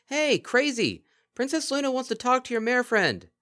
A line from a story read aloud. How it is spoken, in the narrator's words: Twinkleshine, or possibly Colgate, chose to shout